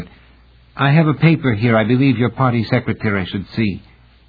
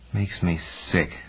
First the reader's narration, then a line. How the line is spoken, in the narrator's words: Lanier said in an undertone